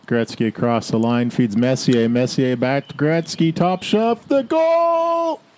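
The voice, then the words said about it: Canadian hockey announcer call. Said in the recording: “That sounded very Canadian.”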